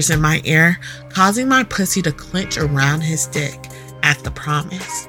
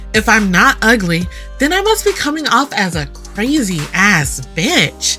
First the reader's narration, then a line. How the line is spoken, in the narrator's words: I exclaim